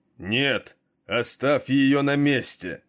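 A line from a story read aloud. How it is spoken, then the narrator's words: Roaring louder than before. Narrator (Russian): Громче прежнего взревел Двослир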